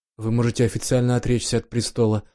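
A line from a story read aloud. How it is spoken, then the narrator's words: Quiet mumble. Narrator (Russian): пробормотал четвертый, обычно самый молчаливый и неконфликтный член Совета Империи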